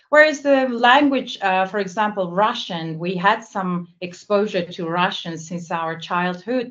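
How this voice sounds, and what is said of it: Non-native English accent. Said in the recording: “English is obviously not my first language ... I have an accent, right? I have an accent.”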